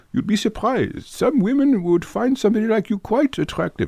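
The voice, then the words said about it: Put-on English accent. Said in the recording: “he was English ... Oh, it's a tricky accent. ... Yeah, I didn't do it so great.”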